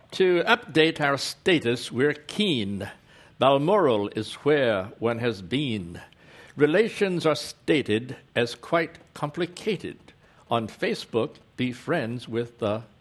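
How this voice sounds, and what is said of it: Regal British accent. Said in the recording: “Notice the regal British accent.”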